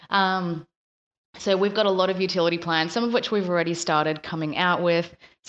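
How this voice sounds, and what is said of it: Slightly rusty morning voice. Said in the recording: “my voice is a little bit, a little bit rusty still”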